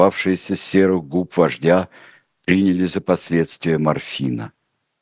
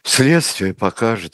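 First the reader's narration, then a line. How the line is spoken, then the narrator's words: Conceding exhale. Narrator (Russian): выдохнула Надежда Константиновна, не желавшая вести спор с тяжело больным человеком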